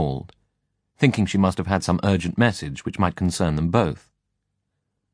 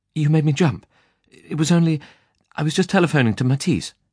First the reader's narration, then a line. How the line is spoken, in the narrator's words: she said breathlessly